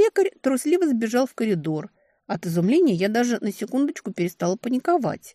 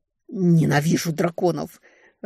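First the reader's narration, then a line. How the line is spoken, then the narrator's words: Growling, near tears. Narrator (Russian): рычала я, едва не плача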